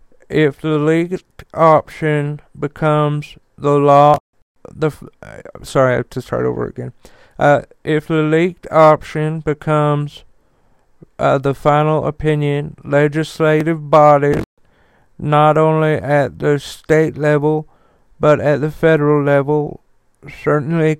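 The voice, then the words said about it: Impression of Mitch McConnell. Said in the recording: “Mitch McConnell ... I'm pretty good at doing his voice”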